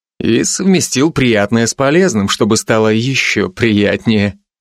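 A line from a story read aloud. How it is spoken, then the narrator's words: Laughing. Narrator (Russian): рассмеялся Алви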